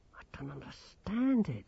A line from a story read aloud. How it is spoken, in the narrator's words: Grimmer muttered